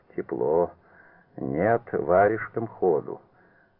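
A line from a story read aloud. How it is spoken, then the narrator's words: Grumbling. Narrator (Russian): Магомбетов ворчал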